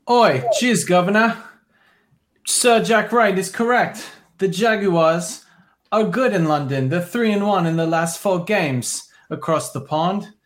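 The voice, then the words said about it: Bad put-on British accent. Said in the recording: “This is a terrible British accent.”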